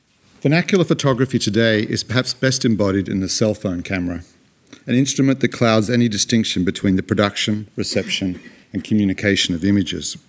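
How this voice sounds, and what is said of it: Antipodean (Australian/New Zealand) accent. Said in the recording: “I'm here to represent an Antipodean accent”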